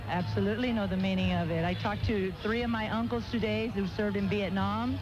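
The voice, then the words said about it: Noticeable accent. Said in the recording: “What kind of accent is this, though? ... Are you Spanish?”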